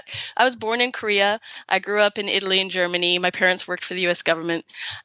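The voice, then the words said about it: American accent. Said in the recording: “I have the American accent”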